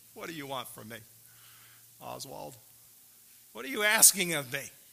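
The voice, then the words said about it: Sarcastic questioning tone. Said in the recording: “I'm being sarcastic a little bit here.”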